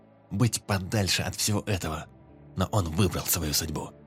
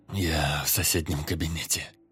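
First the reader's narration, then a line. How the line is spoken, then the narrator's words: Hoarse young man. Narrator (Russian): хрипло ответил парень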